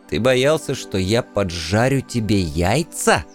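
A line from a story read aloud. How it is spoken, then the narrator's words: Barely restrained hiss. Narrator (Russian): едва сдерживаясь, прошипел я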